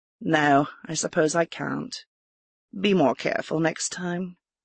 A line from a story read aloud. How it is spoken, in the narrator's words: the woman just said in a soft tone